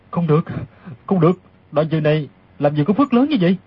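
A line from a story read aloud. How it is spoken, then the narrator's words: Audible muttering. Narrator (Vietnamese): Đoàn Dự lẩm bẩm thành tiếng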